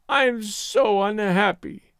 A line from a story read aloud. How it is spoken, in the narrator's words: she wailed